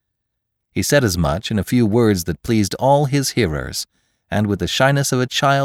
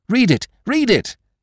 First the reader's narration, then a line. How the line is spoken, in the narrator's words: they cried from the opposite side